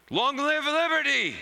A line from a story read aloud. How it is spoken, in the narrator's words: cried the two adults